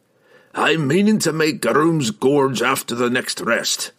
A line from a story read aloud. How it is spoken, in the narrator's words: Brunner exclaimed